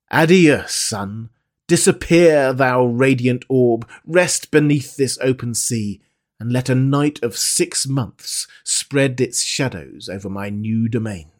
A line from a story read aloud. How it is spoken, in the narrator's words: exclaimed